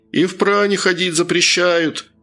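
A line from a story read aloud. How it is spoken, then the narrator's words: Shout. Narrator (Russian): крикнул еще кто-то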